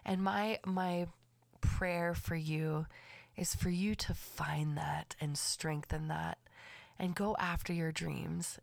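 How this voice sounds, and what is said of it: Raspy voice. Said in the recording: “Excuse my raspy voice. I had a little bit of sniffles”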